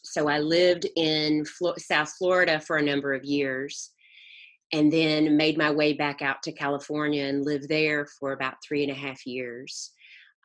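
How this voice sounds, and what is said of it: Southern American accent. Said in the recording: “you've hung on to your Southern accent despite living all over”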